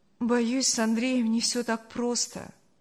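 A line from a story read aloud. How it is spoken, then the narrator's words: Sad speech. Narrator (Russian): грустно сказала Саша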